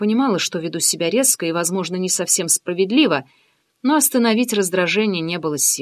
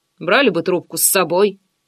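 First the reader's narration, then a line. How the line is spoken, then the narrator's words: Mutter. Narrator (Russian): пробурчал Андрей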